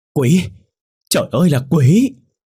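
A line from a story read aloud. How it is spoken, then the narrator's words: Startled old woman screaming. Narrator (Vietnamese): bà giật thót mình, miệng hét lớn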